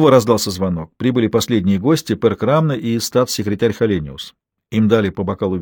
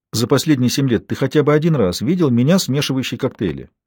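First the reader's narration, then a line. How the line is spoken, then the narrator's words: Calm question. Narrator (Russian): спокойно спросила Анника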